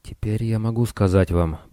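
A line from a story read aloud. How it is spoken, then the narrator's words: Lowered whisper. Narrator (Russian): понизив голос, зашептал Рама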